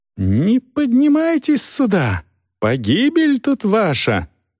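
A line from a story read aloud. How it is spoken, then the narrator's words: Shrieking from upstairs. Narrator (Russian): Продолжал визжать кто-то на 2-м этаже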